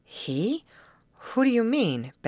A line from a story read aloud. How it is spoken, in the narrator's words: Betty questioned anxiously